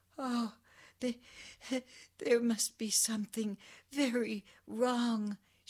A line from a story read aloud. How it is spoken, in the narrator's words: she sobbed